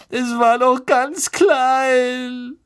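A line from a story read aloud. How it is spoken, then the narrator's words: Sobbing. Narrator (German): schluchzte Lavender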